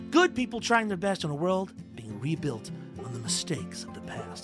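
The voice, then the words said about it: Dramatic movie trailer voice. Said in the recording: “my movie trailer voice”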